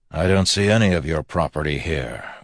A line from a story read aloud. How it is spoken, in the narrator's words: Waxillium replied coldly